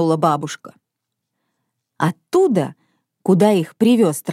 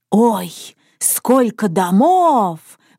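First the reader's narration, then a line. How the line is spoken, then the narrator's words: Old woman exclaiming. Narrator (Russian): воскликнула бабушка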